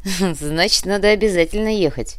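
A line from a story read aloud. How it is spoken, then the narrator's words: Laughing. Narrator (Russian): рассмеялся Глеб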